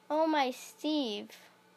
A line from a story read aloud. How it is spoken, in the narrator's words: she cried